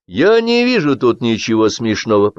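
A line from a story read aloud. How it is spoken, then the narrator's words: Stern bass, hiding embarrassment. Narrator (Russian): пробасил Кирилл Иванович, покрывая строгостью голос свое смущение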